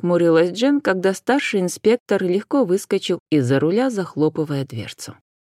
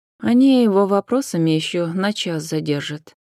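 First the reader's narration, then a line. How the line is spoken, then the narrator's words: Sighing. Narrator (Russian): вздохнула Джен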